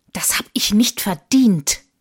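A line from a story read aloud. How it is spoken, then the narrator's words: Hissed. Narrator (German): zischte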